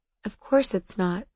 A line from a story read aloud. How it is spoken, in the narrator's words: I said, but my voice was quiet, sad